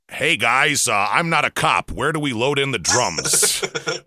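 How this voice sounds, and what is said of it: Put-on non-New York accent, cop-like. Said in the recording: “I'm trying to work on my accent for when we go out of state so people don't know I'm from New York ... You just sound like a cop ... cop and FBI at the same time”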